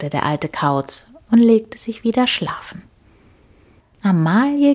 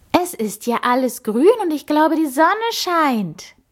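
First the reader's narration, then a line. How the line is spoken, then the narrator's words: Excited exclamation. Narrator (German): rief sie begeistert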